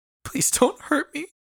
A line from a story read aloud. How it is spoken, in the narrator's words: Pearl begged, this time for herself